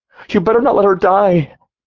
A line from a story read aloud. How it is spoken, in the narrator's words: She screamed, flailing in the guard's arms, pleading